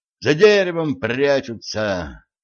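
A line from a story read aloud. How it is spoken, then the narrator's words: Sorrowful sigh. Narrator (Russian): горестно вздохнул стажер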